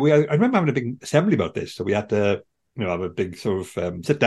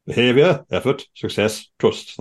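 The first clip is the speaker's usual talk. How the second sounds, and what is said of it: Put-on northern English accent. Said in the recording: “That's a northern accent. I don't know why I'm doing that.”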